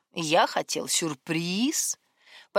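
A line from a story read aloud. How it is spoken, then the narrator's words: Glamorous drawl. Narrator (Russian): Последнее слово он гламурно протянул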